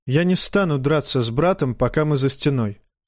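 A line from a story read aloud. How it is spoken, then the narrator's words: Calm, suppressed anger. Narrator (Russian): ответил Джон спокойно, хотя внутри у него все кипело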